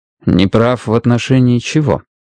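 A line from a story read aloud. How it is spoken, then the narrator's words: Even-toned clarifying question. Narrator (Russian): ровным тоном уточнил Страйк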